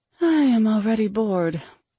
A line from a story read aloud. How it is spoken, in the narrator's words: I sighed